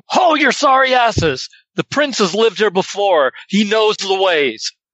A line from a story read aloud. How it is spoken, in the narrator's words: I'll shout at them